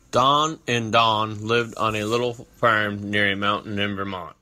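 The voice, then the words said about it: Vermont accent. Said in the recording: “this thing we all hear as the Vermont accent”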